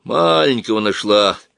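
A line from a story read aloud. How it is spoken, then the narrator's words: Grumbling. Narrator (Russian): ворчал он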